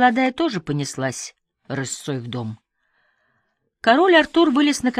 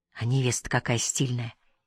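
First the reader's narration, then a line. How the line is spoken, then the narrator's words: Whisper. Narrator (Russian): шепнула Ольга Илье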